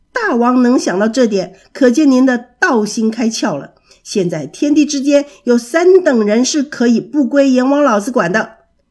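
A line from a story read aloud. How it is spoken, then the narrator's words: Loud monkey voice. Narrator (Chinese): 一只通背猿猴，高声地说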